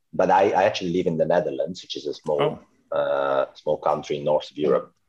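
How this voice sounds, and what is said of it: Italian accent. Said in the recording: “I'm Italian, but that's, I guess you've already gotten that by my accent”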